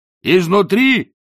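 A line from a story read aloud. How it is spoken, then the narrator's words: Shouted back. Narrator (Russian): прокричал в ответ Ринсвинд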